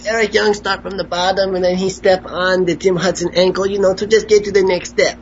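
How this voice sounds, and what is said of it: Impression of Eric Young. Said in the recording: “your Eric Young impression is coming along very nicely. ... It's a very good Eric Young impression.”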